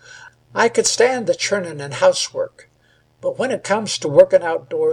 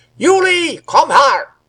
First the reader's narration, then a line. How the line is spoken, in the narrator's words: roared the old man from the well